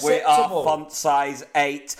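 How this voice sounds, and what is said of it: Robotic German accent. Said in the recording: “in a sort of robotic German accent”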